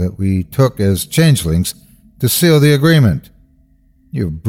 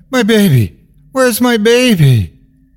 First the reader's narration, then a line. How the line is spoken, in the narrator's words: She is screaming